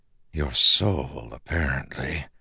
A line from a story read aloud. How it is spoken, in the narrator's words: Kelsier whispered